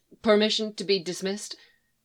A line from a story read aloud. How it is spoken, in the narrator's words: She stammered